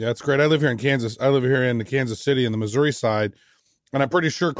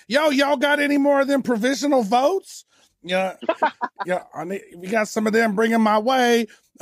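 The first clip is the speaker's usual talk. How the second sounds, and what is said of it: Imitates another person's voice. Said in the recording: “That was a great impression ... That was amongst your best impressions.”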